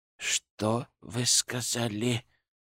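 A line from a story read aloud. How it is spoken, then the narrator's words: Forced out. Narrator (Russian): наконец выдавил он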